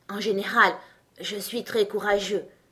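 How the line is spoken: Continued in a low voice. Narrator (French): continua-t-il à voix basse

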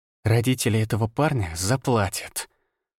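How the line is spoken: Hissing. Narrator (Russian): прошипела Виола

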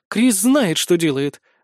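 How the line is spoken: Cat's unsure defensive grumble. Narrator (Russian): бурчит в мою защиту кошечка, вот только как-то неуверенно

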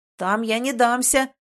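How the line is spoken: Roared. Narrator (Russian): взревел

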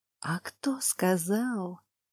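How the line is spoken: Whisper from behind. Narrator (Russian): Шепот вновь оказался за спиной

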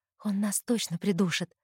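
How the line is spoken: Whispered. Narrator (Russian): шепотом говорю я

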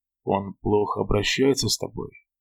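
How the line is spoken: Forced even, calm voice. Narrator (Russian): просил я, стараясь говорить ровным, спокойным голосом

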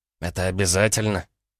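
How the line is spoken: Quiet question. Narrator (Russian): тихо спросил Егор Боброва

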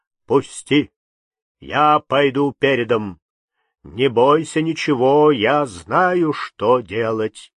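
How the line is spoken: Loud voice. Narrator (Russian): Кудимыч сказал громким голосом

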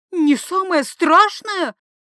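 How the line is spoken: Shrieked. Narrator (Russian): взвизгнула

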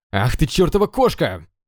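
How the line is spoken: Angry yell. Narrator (Russian): заорал сердито Юйджун

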